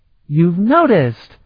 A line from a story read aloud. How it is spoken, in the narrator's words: she exclaimed